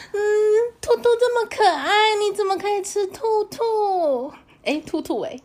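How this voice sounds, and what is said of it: Exaggerated cutesy girlish voice. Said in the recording (Chinese): “那你要模仿一次吗？你要模仿一次，你怎么可以吃兔兔吗？...请开始你的表演”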